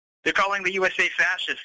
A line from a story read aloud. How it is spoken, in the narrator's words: said angrily